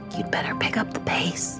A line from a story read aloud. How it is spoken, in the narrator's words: Someone whispering in my ear